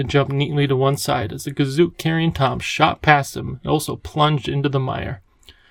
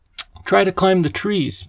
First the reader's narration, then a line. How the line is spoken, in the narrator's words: the professor cried